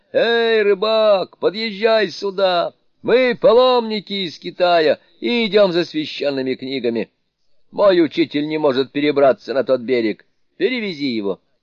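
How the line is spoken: Shouting. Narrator (Russian): Суню-кун крикнул

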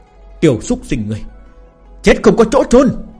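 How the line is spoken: Screaming. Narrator (Vietnamese): Lão tổ hồ tộc gào thét

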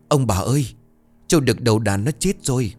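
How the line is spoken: Breathless panting shout. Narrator (Vietnamese): Nó vừa chạy vừa thở hổn hển, miệng không ra hơi nhưng vẫn cố gào

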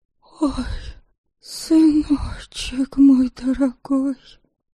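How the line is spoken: Nearly voiceless hoarse wheeze. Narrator (Russian): Почти без голоса просипела рядом Чтислава

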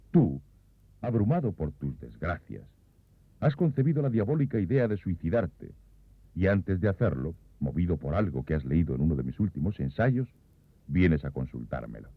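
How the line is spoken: Authoritative emphatic tone. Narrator (Spanish): recalqué este tú con un tono autoritario

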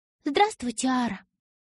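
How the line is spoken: Polite high ringing voice. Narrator (Russian): вежливо проговорила она высоким звенящим голосом

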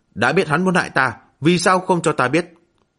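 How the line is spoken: Angry. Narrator (Vietnamese): hắn vẫn tức giận nói

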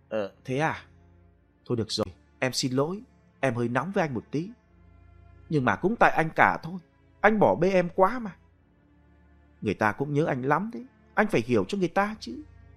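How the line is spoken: Softer, lowered voice. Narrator (Vietnamese): Duyên hạ giọng nhỏ nhẹ hơn

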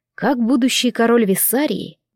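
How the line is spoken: Soft objection. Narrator (Russian): мягко возразил Максимилиан

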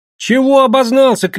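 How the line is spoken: Shouting while moving away. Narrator (Russian): кричал Санка, отъезжая от проруби

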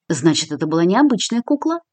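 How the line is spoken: Thoughtful. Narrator (Russian): задумчиво произнесла Кристина

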